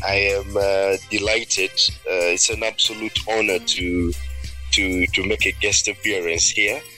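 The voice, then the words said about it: Ugandan English accent. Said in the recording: “I love your Ugandan accent”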